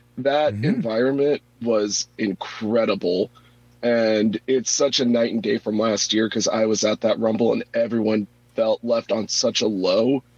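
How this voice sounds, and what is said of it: Hoarse, worn-out voice. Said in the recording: “I don't know if you can tell, but my voice is basically just shot at this point.”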